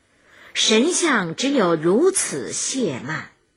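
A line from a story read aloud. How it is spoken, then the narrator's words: Sighing repeatedly. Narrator (Chinese): 再三叹之曰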